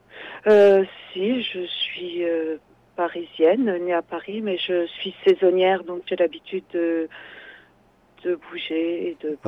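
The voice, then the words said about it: Slight accent. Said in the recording (French): “Vous avez un léger accent, vous n'êtes donc pas d'ici? ... un léger accent”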